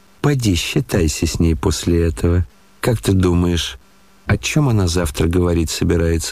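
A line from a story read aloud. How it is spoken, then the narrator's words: Plain question. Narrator (Russian): спросил Ганя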